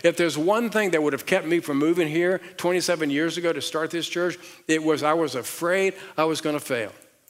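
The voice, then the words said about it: Southern accent. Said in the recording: “my southern accent”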